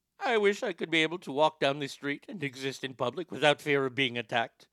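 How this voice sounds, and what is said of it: Poor put-on Indian accent. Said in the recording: “That was a terrible attempt at an Indian accent, even though I think I nailed it.”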